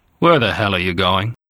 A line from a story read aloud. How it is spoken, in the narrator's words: She answered him coldly